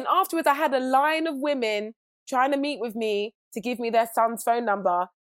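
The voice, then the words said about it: British accent. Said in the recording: “it's because I'm British. Everyone thinks the British accent... means smart”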